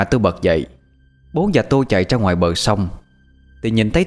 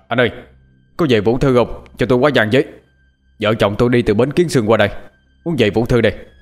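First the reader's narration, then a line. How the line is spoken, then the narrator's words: Loud shout. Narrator (Vietnamese): Bố tôi hét to lên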